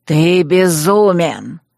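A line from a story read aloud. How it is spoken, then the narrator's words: Hissed. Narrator (Russian): прошипел Магнус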